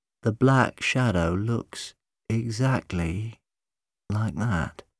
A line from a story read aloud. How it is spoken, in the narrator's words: he was saying slowly